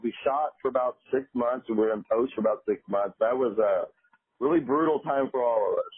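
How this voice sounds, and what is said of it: Strong Texas ranch accent. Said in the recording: “you got that strong ranch accent over there”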